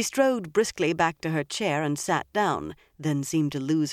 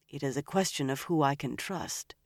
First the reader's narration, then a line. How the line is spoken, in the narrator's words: she said softly